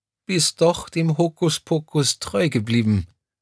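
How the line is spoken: Tearful but happy. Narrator (German): ergänzte Crescentia Rausch mit verheulter Stimme

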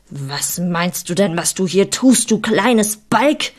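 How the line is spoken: Shouting at someone. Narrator (German): schrie mich an

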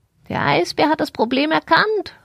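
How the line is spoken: Calling out. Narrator (German): rief sie

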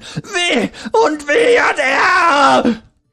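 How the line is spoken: Shrill final scream, weeping. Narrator (German): schrie er nun fast schrill ein letztes Mal, bevor er weinend auf die Knie sank

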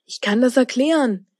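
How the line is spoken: Calling out. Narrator (German): rief Linus

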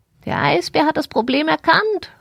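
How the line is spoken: Called out. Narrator (German): rief sie

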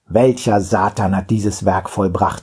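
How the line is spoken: Gruff question. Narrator (German): fragte er barsch

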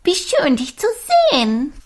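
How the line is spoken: Giggling. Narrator (German): Pia kicherte

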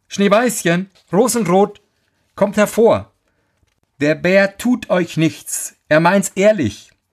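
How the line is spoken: Calling out. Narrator (German): rief sie

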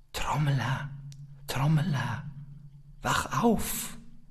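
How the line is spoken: Soft voice calling. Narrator (German): eine leise Stimme, die ihm zurief

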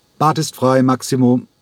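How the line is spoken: Called out. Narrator (German): rief

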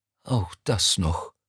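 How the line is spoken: Sighed. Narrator (German): seufzte er

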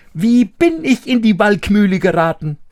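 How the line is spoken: Calling out. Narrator (German): rief

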